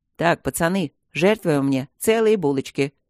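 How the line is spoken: Deep bass voice. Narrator (Russian): пробасил

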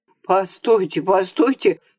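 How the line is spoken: Frightened wheeze. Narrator (Russian): захрипел побледневший еврей

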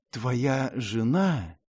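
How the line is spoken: Whispered. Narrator (Russian): шепотом начал он

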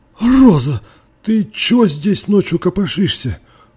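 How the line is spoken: Choked, forced out. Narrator (Russian): Сглотнув подкативший к горлу комок, выдавил мистер Торби

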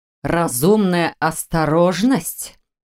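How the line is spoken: Near growl. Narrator (Russian): почти прорычал Маркус

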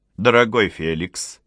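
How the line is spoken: Affectionate. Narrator (Russian): сказал ласково император

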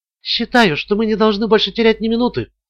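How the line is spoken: Whispered. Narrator (Russian): прошептала Ламар

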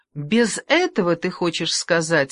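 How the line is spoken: Snorting. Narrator (Russian): хмыкнул он

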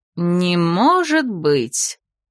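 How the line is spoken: Mocking reply. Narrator (Russian): насмешливо отозвалась герцогиня Лаверна

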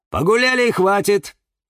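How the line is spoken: Stern voice. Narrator (Russian): сказала она строгим голосом

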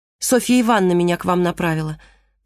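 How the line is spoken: Hurried speech. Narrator (Russian): торопливо, чтобы успеть, прежде чем он закроет калитку, сказала Марго

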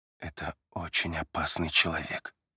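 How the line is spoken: Quiet speech. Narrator (Russian): тихо произносит Адам

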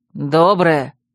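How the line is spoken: Growled. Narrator (Russian): рыкнул Вервульф

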